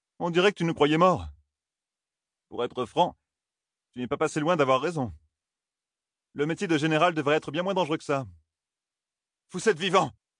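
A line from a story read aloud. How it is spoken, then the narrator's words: Exclaimed. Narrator (French): s'écria Rand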